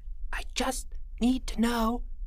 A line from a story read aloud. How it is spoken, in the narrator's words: Jeffrey whispered